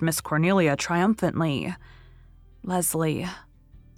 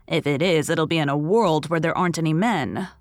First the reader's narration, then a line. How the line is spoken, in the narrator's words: said Miss Cornelia gloomily